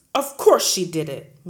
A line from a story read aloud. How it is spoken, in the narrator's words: Miss Trunchbull boomed